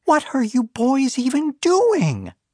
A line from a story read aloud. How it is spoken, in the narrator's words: she shrieked